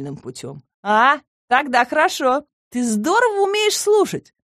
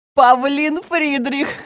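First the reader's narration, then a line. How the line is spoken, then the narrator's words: Laughing. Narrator (Russian): засмеялась Нина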